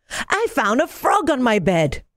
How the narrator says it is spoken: he yelled out

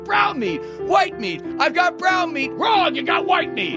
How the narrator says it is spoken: everyone sat around yelling out

